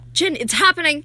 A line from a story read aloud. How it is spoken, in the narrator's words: her mother to run and yell